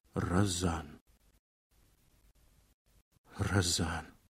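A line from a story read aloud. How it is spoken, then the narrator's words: Muttered, then laughing. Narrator (Russian): Пробормотал и засмеялся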